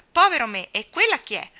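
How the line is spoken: Ardent, clumsy exclamation. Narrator (Italian): esclamò con più ardore che eleganza

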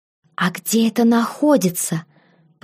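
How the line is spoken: Whispered question. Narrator (Russian): почему-то шепотом спросила я

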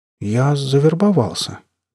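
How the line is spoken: Uncertain. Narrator (Russian): неуверенно произнес Атта

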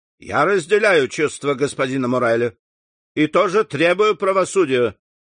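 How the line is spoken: Loud. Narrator (Russian): сказал он громко

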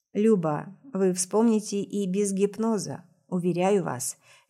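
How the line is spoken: Soft. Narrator (Russian): мягко говорит Анвар

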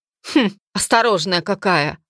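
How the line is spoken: Snorting. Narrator (Russian): хмыкнул Мерт

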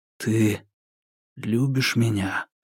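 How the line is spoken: Barely audible question. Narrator (Russian): еле слышно спросил Соколов

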